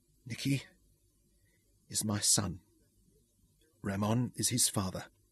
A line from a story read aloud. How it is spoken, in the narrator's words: said softly